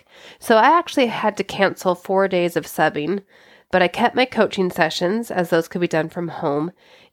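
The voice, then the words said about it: Voice sounds sick. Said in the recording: “I was sick last week. You can hear it in my voice.”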